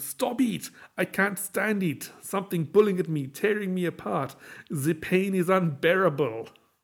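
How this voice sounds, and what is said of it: Put-on French accent. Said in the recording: “Just like that French dialogue and accent.”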